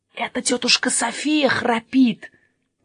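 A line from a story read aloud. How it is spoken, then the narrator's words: Whisper. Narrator (Russian): прошептал Еспер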